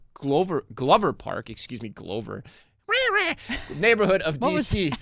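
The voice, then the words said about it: Grover from Sesame Street impression. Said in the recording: “That was my Grover impression, you know, from Sesame Street.”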